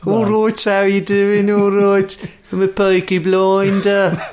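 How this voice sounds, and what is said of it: Dodgy put-on Brummie accent. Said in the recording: “the dodgy Brummie accent”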